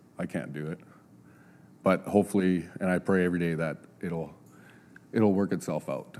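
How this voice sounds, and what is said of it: Emotional, choked-up voice. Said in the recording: “a little bit emotional”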